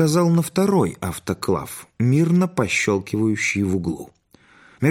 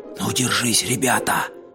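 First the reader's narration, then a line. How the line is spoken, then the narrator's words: Whisper from crowd. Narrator (Russian): прошептали в толпе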